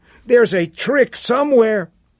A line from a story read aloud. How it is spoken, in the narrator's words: cried Chico suddenly